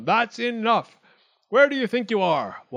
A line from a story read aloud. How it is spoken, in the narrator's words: Wildcat shouted